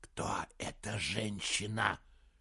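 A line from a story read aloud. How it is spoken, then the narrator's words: Hissing. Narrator (Russian): прошипел Саймон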